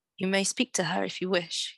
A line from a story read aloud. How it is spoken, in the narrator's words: he said